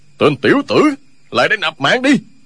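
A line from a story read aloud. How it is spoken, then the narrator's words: Furious roar. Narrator (Vietnamese): Không Tính càng lúc càng tức, gầm lên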